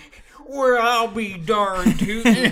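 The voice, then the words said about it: Exaggerated put-on Southern accent. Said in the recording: “develop a Southern accent ... I'm gonna have a really offensive Southern accent.”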